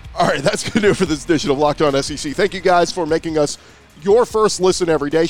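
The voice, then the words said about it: Hoarse, nearly lost voice. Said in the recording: “I've lost my voice”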